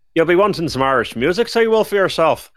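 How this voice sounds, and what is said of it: Ropey put-on Irish accent. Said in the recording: “Where's your accent from? The BBC Props Department. ... it's a bit ropey.”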